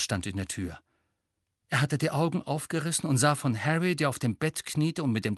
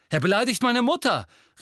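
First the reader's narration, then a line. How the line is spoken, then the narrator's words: Calling out. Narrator (German): rief Seamus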